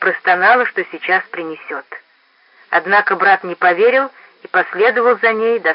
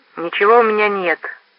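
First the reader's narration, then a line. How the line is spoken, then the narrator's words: Sullen grumble. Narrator (Russian): угрюмо проворчал Рой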